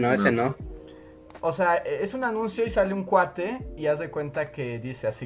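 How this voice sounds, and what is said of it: Usual voice. Nothing is said of it.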